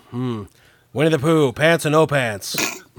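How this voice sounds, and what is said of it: Imitates another person's voice. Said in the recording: “That's my Larry King impression. ... I've not heard that impression. That's a good one.”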